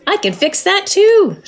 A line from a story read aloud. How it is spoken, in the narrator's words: shouted Badger happily